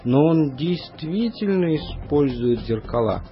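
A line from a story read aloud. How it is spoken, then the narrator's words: Plain. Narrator (Russian): сказал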